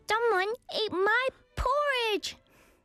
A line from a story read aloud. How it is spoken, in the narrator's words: Baby Bear shouted